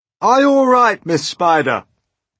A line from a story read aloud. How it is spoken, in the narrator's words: shouted the old green grasshopper